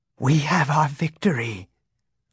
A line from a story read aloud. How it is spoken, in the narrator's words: Luke whispered